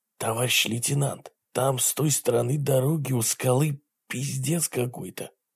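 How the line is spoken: Whispering. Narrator (Russian): прошептал

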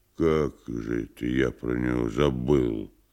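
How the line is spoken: Muttered. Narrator (Russian): пробормотал Никанор Иванович

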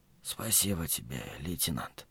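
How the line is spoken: Whisper. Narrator (Russian): То есть прошептал

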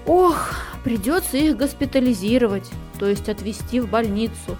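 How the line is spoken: Mother sighing. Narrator (Russian): вздохнула мама

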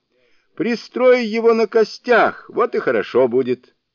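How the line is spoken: Shouting. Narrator (Russian): Суню-кун крикнул

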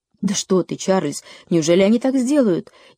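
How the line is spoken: Frightened mother exclaiming. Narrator (Russian): испуганно воскликнула мама

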